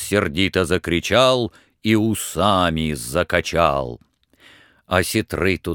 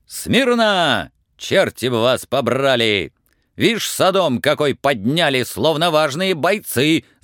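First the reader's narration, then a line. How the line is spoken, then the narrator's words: Messengers shouting. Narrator (Russian): закричали гонцы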